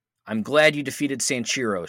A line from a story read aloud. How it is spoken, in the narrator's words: says